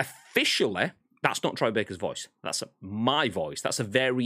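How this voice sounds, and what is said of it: Usual voice. Nothing is said of it.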